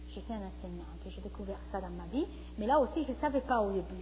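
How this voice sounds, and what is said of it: Foreign accent speaking French. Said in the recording (French): “J'ai un accent. Je suis étrangère.”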